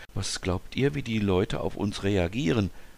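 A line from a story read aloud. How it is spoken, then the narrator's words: Slightly anxious question. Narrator (German): wollte Anne wissen, und ihre Stimme klang ein wenig ängstlich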